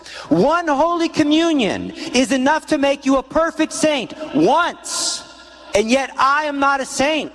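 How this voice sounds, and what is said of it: Loud, almost yelling delivery. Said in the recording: “It sounds like I'm yelling at you.”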